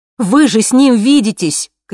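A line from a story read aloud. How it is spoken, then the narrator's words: Shouting. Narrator (Russian): кричала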